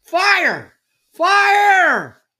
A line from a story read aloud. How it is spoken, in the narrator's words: came screams from inside as members of the Civil Defense Committee stampeded out